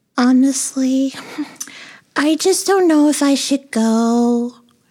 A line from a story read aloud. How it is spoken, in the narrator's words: moaned